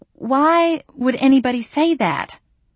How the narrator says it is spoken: I stammered

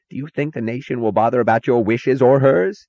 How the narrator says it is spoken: screamed Taggart

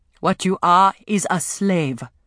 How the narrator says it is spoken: Afi told her, her voice cold and firm

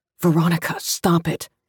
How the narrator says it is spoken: he said, as calmly as he could

